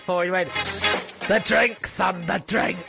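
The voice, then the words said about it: Impression of a Scottish fan. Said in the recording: “It's a good impression.”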